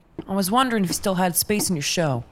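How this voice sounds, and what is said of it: Lowered voice, put-on American accent. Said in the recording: “She drops her voice and dons an American accent.”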